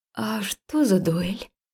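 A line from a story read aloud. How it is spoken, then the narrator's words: Fearful mumble. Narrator (Russian): промямлила я, в страхе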